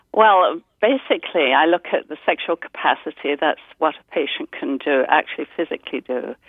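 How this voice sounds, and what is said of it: English accent. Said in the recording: “she has a neat accent. We always love the English accents”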